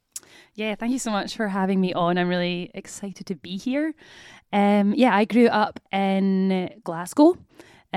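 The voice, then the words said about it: Scottish accent. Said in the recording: “you were born in Scotland, it says your accent.”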